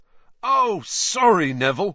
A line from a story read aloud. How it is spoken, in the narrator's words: Fred shouted over all the laughter